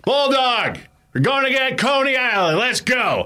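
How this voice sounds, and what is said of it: Loud booming imitated voice. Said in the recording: “His voice is booming down through the corridors.”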